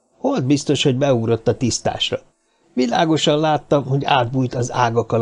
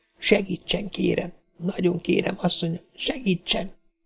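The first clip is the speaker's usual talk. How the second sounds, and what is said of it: Trembling whisper. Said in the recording (Hungarian): “reszkető hangon a fülébe suttogta”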